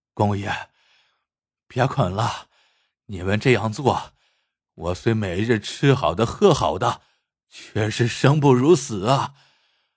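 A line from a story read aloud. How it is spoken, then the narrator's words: Beggar, long weary sigh. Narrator (Chinese): 乞丐却摇头长叹一声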